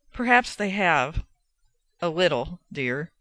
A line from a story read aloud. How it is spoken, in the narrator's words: she said